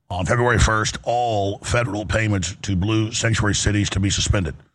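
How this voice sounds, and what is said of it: Hoarse, laryngitic voice. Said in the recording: “My laryngitis, as you can hear, is a lot better ... is talking like me”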